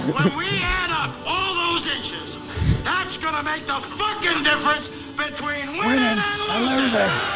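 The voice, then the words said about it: Al Pacino impression. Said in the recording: “good Al Pacino impersonation ... That was spot on Al Pacino”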